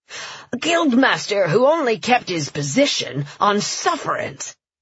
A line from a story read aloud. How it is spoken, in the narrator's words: the fisherman sneered